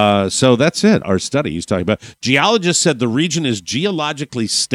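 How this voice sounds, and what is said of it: Usual voice. Nothing is said of it.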